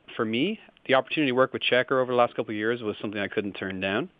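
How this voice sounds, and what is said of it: Irish accent. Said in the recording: “you might hear from my accent, I'm not actually from the United States. I didn't grow up with AP. I actually grew up in Ireland.”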